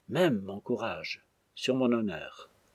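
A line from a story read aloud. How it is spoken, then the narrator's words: Faltering, repeated murmur. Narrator (French): Sa voix soudain perdit toute maîtrise, il répéta dans un murmure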